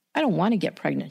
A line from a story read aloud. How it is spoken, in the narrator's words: she said